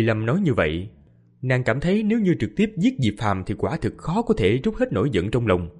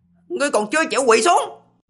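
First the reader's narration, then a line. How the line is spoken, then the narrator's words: Cold sharp shout. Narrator (Vietnamese): Lý Vân quát lạnh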